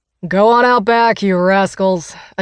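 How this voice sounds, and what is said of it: Deep booming character voice. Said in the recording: “a deep voice booms”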